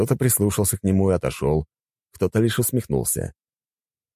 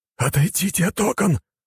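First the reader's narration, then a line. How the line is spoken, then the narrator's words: Madman's hiss. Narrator (Russian): прошипел безумец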